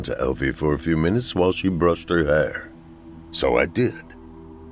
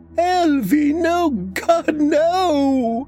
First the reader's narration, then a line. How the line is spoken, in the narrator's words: She screamed that over and over